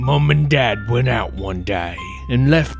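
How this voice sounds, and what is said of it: Put-on Cockney accent. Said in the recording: “I'm going to do it in a Cockney accent.”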